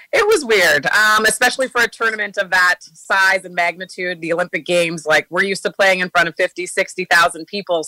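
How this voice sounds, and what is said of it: Slightly raspy voice. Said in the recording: “I heard my voice quite a bit. That's why it's a bit raspy right now.”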